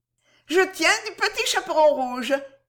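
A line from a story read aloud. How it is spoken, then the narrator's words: Laughing. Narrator (French): disait-elle en riant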